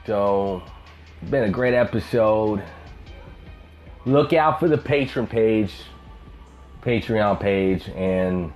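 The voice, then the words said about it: Southern twang accent. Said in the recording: “the man with the million dollar voice. ... That hobo with a southern twang.”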